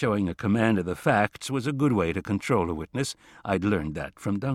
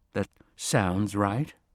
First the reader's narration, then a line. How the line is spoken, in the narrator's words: She shifted uneasily and said